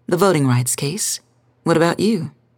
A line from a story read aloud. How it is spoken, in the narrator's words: He sighed